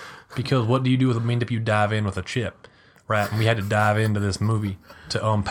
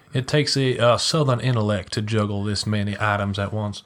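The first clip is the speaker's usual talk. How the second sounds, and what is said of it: Daniel Craig's Southern accent impression. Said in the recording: “Daniel Craig's southern accent”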